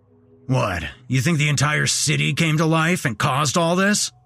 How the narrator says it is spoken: grumbled Sam

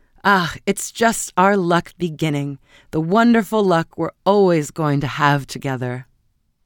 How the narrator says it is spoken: cried her husband gaily

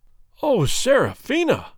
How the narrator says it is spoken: cried he in a tone of agony

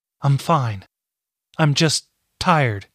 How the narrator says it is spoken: said, but then she gasped

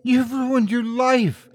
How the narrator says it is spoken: Adeline sobbed

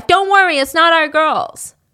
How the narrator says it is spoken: yelled at his wife

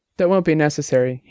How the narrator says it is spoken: he answered

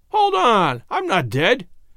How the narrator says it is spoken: he cried out, with stormy countenance

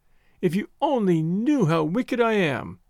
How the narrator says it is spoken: she sobbed on his shoulder

